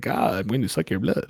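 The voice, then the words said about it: Campy Dracula accent. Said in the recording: “He's doing the whole like Dracula accent occasionally”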